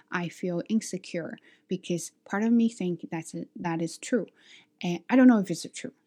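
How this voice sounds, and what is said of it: Speaks English with an accent. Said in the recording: “my accent, ... my pronunciation, or the way I talk”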